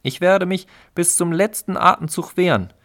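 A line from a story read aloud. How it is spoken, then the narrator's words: Energetic female call. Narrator (German): rief das Weibchen energisch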